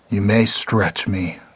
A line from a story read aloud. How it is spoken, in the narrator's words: the wolf seemed to growl over the resonance